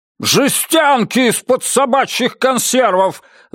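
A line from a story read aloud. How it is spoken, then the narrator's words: Yelling. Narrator (Russian): заорал Мальоре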